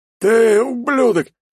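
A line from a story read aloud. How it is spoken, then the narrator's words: Hoarse rasp. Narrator (Russian): хрипит он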